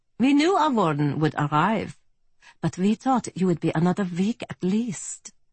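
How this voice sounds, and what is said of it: German accent. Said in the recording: “he said to me in a fine German accent”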